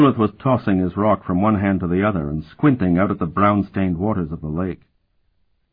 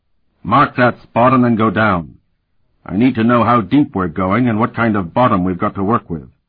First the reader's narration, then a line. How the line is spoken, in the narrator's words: he bellowed in a shattering voice